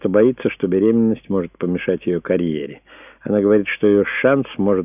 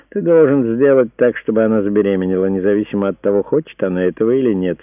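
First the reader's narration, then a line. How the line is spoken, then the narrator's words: Satisfied. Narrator (Russian): сказал Марк … с довольным видом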